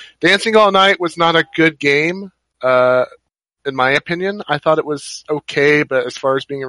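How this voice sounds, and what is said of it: Usual voice. Nothing is said of it.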